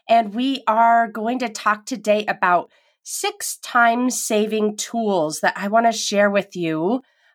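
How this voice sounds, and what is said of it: Strange-sounding, unwell voice. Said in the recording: “my voice sounds a little bit weird today. I think I might have COVID. ... I just feel super tired ... if my voice sounds strange”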